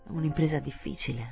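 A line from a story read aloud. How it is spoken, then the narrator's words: Mumbled. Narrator (Italian): bofonchiò il signor Verloc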